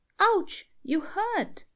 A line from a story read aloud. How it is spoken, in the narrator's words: cried a little voice